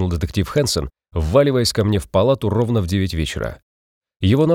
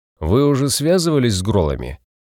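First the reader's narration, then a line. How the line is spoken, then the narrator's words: Drunken slurred voice. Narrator (Russian): Пьяным размазанным голосом справлялся я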